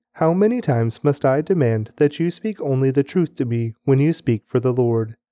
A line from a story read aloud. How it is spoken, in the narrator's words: But the king replied sharply